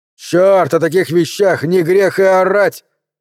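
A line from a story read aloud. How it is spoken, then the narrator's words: Shouted. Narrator (Russian): выкрикнул Гарднер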